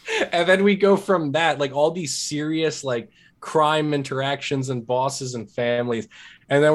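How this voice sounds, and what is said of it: Usual voice. Nothing is said of it.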